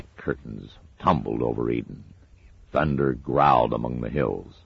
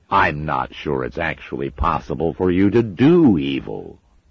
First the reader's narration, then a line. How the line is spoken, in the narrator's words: said Crawley sarcastically